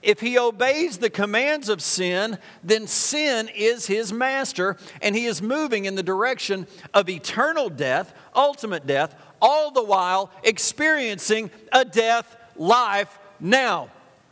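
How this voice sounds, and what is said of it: Loud, yelling preaching voice. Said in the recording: “I'm yelling. ... That's what preachers do, isn't it? Some of you are like, he needs to calm down just a little bit.”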